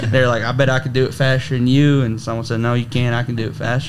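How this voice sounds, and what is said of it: Cowboy-style country accent. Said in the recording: “I really love your accent. It just suits rodeo and cowboy so well.”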